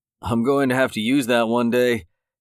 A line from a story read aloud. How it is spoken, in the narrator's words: said with a chuckle